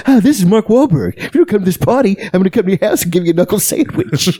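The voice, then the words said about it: Imitates another person's voice. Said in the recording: “I just do that impression all the time. And I don't even know if it's a good one, really.”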